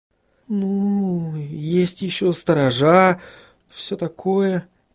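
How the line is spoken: Uncertain. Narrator (Russian): неуверенно произнесла Сахариса

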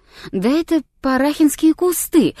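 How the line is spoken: Exclaiming. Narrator (Russian): воскликнул я наконец

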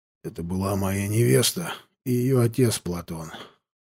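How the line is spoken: Hoarse, forced out. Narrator (Russian): хрипло проговорил Лешка, буквально выталкивая эти слова из горла

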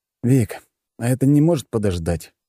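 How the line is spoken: Lazy drawl. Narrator (Russian): лениво проговорил

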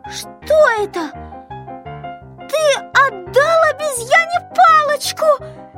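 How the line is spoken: Shouting. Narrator (Russian): закричала Кнопочка

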